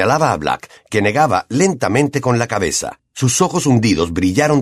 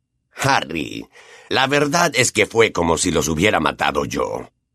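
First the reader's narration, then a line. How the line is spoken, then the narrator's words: Growling. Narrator (Spanish): gruñó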